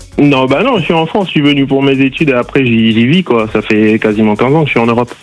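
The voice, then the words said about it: Southern French accent. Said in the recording (French): “pourquoi t'as un accent du sud?”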